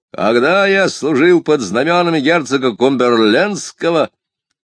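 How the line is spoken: Thunderous voice. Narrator (Russian): Он громовым голосом произносил

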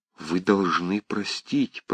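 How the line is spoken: Quiet. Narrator (Russian): промолвила она тихо

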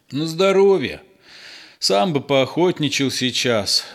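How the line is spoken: Sighing. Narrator (Russian): вздохнул фельдшер

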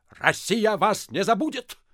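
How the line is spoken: Barking. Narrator (Russian): рявкнул Остап

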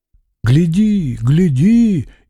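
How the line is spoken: Frightened whispers. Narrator (Russian): испуганно зашептали

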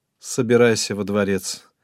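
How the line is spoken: Dejected voice. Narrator (Russian): упавшим голосом сказал он ей

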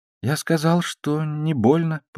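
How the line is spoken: Babbling. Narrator (Russian): пролепетал я

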